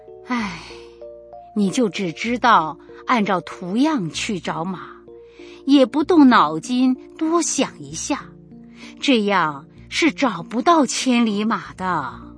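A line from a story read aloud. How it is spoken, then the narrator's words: Sighing lament. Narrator (Chinese): 感叹地说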